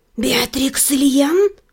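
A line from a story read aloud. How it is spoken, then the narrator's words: Hissing whisper, stranger. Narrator (Russian): Свистящим шепотом осведомился незваный гость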